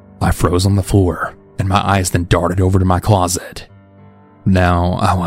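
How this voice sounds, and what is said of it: Usual voice. Nothing is said of it.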